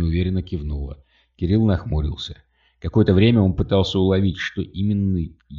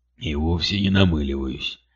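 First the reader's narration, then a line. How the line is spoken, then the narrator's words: Grumbling old man objecting. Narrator (Russian): ворчливым тоном возразил дед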